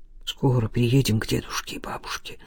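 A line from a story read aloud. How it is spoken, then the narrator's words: Mumbled. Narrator (Russian): пробормотал Илья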